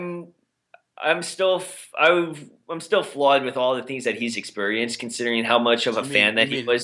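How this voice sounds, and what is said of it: Boston accent. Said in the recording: “Your Boston accent said flawed, but it's floored. ... My Boston accent ... No, it's his Boston accent”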